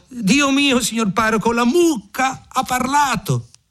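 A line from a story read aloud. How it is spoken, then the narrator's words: Hurried shout. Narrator (Italian): In gran fretta corse dal padrone e gridò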